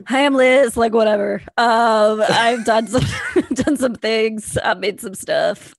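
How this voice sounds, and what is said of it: Imitates another person's voice. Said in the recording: “I'm going to do my impersonation of Alrik”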